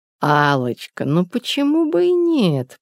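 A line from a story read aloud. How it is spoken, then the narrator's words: Purr. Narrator (Russian): промурлыкала Елена Семеновна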